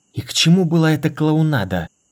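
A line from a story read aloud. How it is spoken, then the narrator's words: Hissed. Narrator (Russian): прошипел Дорин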